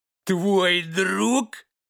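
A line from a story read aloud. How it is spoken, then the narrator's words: Roaring laughter. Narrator (Russian): Расхохотался старший пес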